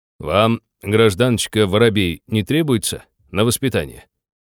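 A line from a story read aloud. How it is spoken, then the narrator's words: Stern question. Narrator (Russian): строго спросил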